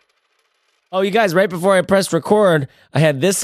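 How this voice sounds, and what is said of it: Usual voice. Nothing is said of it.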